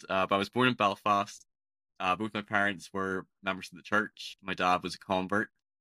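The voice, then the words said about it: Northern Irish accent, slightly Scottish-sounding. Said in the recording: “I'm from Northern Ireland ... my accent's a bit peculiar. It's not the typical Irish accent that you associate with leprechauns or people from Dublin. I think it almost sounds a little bit more Scottish than your typical Irish accent.”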